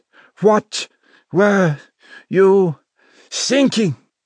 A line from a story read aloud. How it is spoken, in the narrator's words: he pleaded